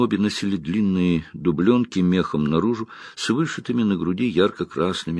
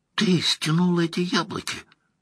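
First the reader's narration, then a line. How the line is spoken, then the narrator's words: Hiss. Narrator (Russian): прошипела Найниф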